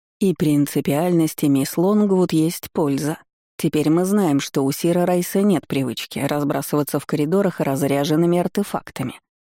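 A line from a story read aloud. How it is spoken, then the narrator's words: Unctuous tone. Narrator (Russian): договорил елейным тоном док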